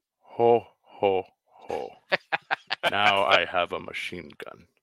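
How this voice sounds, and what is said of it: Alan Rickman impression. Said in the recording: “do the voice of Alan Rickman when he reads the shirt”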